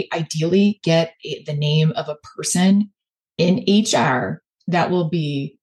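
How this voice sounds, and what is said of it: Chicago accent. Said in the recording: “that's my Chicago accent coming in HR”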